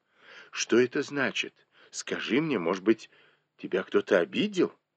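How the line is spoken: Anxious question. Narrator (Russian): Не понимая, в чем дело, госпожа Ван взволнованно спросила

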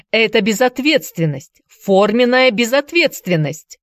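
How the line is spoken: Notary shouting. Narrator (Russian): закричал нотариус

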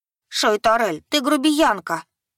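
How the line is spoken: Indignant angry huffing. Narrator (Russian): негодующе сердито запыхтела

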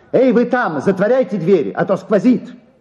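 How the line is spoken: Angry defiant shouting. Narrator (Russian): он, желая показать им, что ему вовсе не стыдно, кричал сердито

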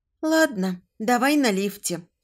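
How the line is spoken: Sighing. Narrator (Russian): вздохнула я

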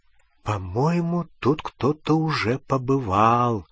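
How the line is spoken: Whisper. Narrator (Russian): прошептала Гермиона

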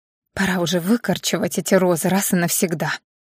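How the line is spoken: Muttered under breath. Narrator (Russian): пробормотала себе под нос Ани

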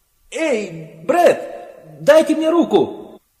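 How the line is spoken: Hysterical shout. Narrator (Russian): истерически закричал он

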